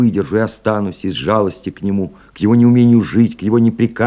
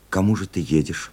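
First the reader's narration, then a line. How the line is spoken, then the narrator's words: Tired question. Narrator (Russian): устало спросила Люба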